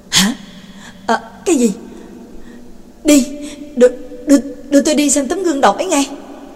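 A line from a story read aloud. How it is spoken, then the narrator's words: Sudden exclamation. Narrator (Vietnamese): bật thốt lên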